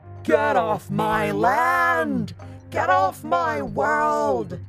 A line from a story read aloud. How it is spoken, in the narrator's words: the Namor boomed in a rage